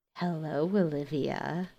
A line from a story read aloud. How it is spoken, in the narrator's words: he says softly